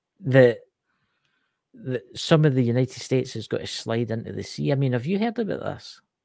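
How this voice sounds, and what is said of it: Scottish accent. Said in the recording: “It's a Scottish accent, guys.”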